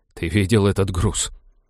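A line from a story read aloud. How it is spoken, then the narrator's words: Groaning. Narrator (Russian): простонал Роджер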